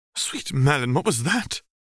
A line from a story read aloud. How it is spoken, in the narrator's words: Lady Malfoy gasped